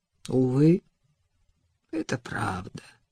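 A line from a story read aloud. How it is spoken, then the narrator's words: Crushed, despairing voice. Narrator (Russian): убитым голосом произнес Адам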